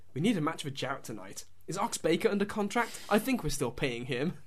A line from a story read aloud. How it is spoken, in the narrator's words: says quietly, because obviously Hogan's not there apparently